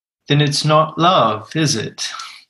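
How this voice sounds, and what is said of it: Put-on British accent. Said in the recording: “It's my best British accent.”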